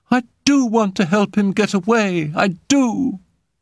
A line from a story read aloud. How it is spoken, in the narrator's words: he cried